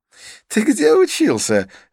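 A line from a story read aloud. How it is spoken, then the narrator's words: Curious laugh. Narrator (Russian): рассмеялся Идрис с любопытством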